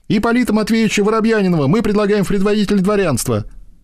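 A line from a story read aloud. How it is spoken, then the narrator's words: Young men exclaiming. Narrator (Russian): воскликнули молодые люди Никеша и Владя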